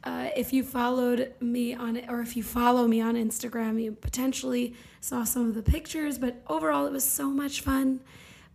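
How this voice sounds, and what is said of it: Strained, worn-out voice. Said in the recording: “I am so sorry for my voice... as you can tell from my voice... My voice, I need to be on vocal rest today”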